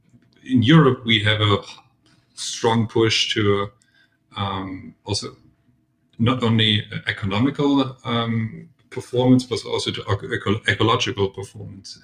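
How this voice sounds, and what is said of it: German accent. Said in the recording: “as you can hear in my accent, I'm also German.”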